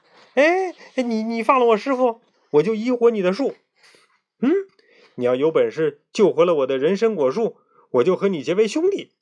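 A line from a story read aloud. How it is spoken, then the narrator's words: Anxious loud shout. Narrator (Chinese): 孙悟空一看急了，大声喊道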